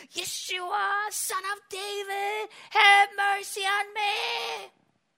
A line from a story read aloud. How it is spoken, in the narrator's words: He starts to scream on top of his lungs and say